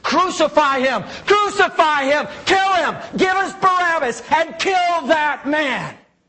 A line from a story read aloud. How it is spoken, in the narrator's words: screaming